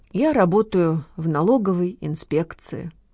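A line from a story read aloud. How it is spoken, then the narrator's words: Sad. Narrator (Russian): грустно сообщил Леня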